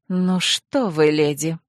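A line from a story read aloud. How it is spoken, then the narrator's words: Through gritted teeth. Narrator (Russian): процедила сквозь зубы королева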